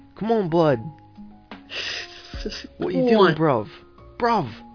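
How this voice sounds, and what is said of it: Bad put-on English accent. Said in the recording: “I have a bad English accent”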